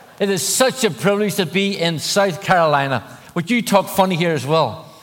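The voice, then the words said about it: Irish accent, congested voice. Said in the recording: “I am Irish. I have a funny accent. I also have a cold.”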